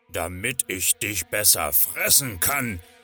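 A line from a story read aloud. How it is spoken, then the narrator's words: Growling wolf. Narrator (German): knurrte der Wolf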